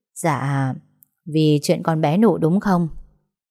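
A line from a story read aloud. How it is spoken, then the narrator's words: Sigh. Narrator (Vietnamese): Mụ Tám thở dài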